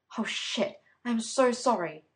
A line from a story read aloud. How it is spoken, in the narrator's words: she stuttered